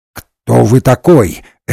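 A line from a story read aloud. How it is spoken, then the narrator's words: Sharp question. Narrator (Russian): резко спросил Ренсом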